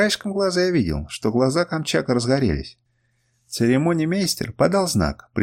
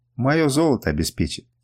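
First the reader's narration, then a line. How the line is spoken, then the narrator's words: Quiet. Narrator (Russian): тихо произнес Сафрар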